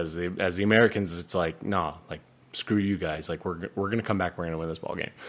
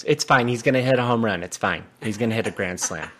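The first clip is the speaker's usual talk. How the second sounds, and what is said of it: Imitates another person's voice. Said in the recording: “Your impression of your mom, dude. That's incredible.”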